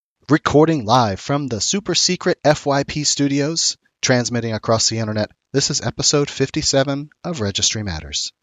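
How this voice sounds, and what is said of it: Hoarse, froggy voice. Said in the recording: “my super duper froggy voice ... I've had a cold for the last week.”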